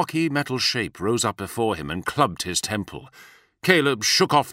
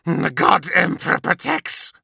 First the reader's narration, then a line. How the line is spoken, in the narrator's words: he snarled